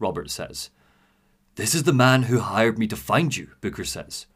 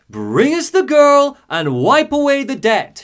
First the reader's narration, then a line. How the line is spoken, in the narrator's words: she shouts over the storm